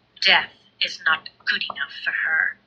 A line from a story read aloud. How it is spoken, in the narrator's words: Luvanna murmured to herself